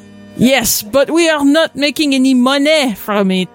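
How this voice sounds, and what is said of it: Exaggerated, unconvincing French accent. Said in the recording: “Do a kind of racist French accent ... It's not a very convincing French accent.”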